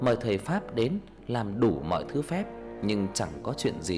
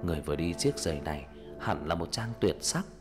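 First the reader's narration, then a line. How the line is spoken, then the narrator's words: Dazed mumbling. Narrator (Vietnamese): Nhà vua như trong cơn mê lẩm bẩm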